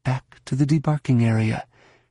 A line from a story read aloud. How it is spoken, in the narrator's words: she muttered